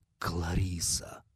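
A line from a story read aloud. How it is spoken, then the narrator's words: Whispered. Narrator (Russian): прошептал Скотт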